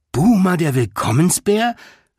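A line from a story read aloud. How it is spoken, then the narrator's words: Delighted call. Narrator (German): rief June erfreut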